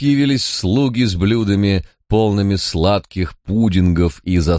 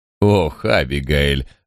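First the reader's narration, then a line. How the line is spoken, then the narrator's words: Sighing. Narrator (Russian): вздохнул Николас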